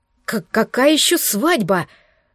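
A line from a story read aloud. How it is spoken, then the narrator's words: Stammering, shocked breath. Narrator (Russian): запинаясь, потрясенно выдохнула Кассандра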